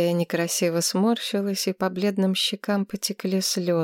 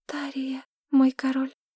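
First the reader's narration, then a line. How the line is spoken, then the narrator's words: Quiet young woman. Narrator (Russian): тихо произнесла девушка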